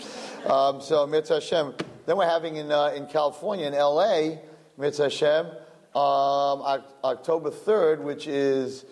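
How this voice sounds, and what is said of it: Brooklyn accent. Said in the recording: “make fun of my Brooklyn accent”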